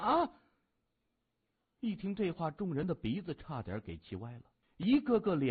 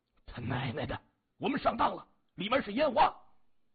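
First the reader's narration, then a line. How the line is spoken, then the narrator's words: Angry cursing. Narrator (Chinese): 后者…怒声骂着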